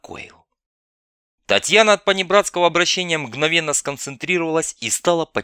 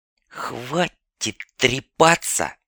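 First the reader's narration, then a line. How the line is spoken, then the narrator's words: Sudden hiss. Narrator (Russian): вдруг прошипела Ольга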